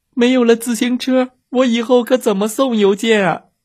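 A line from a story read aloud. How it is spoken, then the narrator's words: Sobbing. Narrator (Chinese): 邮递员抽泣着说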